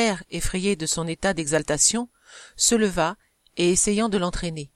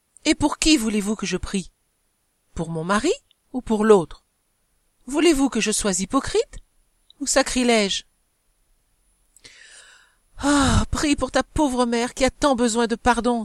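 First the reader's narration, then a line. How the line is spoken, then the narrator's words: Exclaimed. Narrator (French): s'écria madame de la Tourménil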